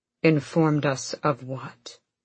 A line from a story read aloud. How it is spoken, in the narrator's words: Rowan said too quietly